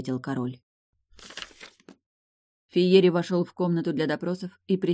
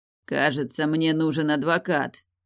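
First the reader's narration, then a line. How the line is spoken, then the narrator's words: Grumbling under breath. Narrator (Russian): пробурчал себе под нос руководитель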